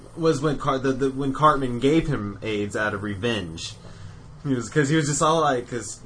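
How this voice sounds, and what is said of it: Usual voice. Nothing is said of it.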